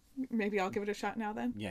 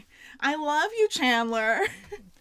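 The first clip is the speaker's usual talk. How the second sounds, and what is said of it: Nasally impression of Janice. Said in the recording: “Janice ... in her very nasally voice ... It's more like Chandler. Yeah, you need to have that, you know, that the er”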